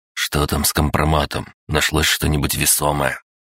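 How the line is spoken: Snort. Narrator (Russian): хмыкнул

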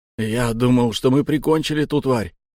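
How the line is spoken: Breathed out. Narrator (Russian): выдохнул три гвоздя

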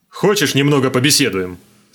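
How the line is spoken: Sudden loud question. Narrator (Russian): спросил вдруг Хогна так громко, что я вздрогнул

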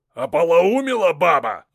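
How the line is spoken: Roared. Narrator (Russian): взревел Шуйский

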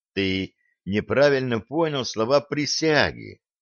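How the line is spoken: Gentle. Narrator (Russian): ласково сказал Блад

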